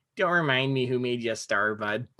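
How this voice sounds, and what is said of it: Nasal imitation of another person's voice. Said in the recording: “my Phil Kessel impression ... It's just that nasally voice is just so funny.”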